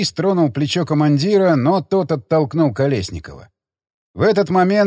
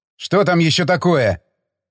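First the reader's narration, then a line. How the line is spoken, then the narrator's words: Grumbled. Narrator (Russian): проворчал Стечкин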